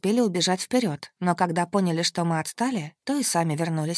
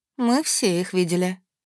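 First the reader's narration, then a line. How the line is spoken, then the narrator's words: Grim. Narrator (Russian): мрачно сообщила Эльдара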